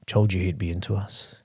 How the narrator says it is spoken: growled

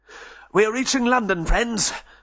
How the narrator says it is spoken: panted Benchley

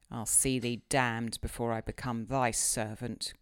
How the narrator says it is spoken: growled the lad

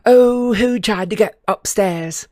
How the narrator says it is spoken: they giggled happily

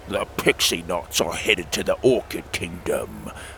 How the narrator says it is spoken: Timothy croaked

